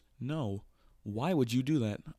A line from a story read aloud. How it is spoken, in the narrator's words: cried as I ran